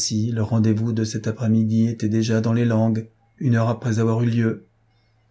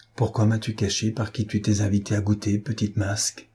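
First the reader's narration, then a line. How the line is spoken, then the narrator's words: Old woman, hushed. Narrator (French): lui dit la vieille femme tout bas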